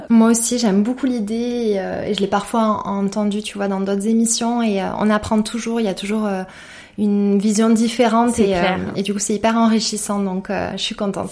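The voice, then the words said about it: Sing-song southern French accent. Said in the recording (French): “t'as un petit accent chantant ... ça me rappelle mes copines de Perpignan”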